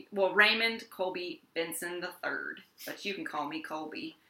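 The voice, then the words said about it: Attempted Texan accent. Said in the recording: “He's from Texas. That's why I did that accent. I don't know if that was a Texan accent”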